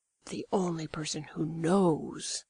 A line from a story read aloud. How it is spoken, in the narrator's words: his voice dropped to a whisper